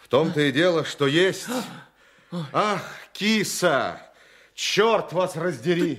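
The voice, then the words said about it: Shouting loudly. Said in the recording (Russian): “не кричите вы! Вас слышно!”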